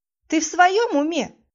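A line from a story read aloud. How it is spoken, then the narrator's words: Yelling. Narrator (Russian): завопила я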